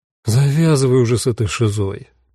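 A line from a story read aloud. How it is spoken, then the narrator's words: Tired request. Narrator (Russian): устало попросил Руди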